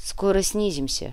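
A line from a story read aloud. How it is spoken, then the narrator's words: Calm captain. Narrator (Russian): неожиданно спокойно произнес капитан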